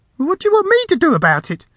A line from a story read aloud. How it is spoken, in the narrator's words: snapped